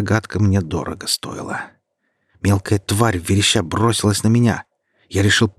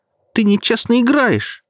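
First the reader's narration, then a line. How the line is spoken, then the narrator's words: Childishly hurt shout. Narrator (Russian): с какой-то детской обидой в голосе выкрикнула она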